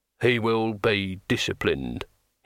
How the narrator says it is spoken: he said flatly

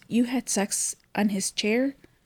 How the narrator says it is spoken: Monica is surprised and in a higher voice says

